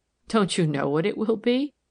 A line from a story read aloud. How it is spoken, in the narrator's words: woman's laugh was puzzled and happy